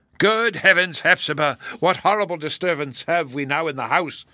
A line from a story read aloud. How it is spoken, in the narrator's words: cried he, wreaking his resentful impatience